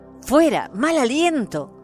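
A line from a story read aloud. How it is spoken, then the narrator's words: Brothers shouting. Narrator (Spanish): los hermanos gritaron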